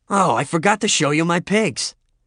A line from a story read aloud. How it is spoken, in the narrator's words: he exclaimed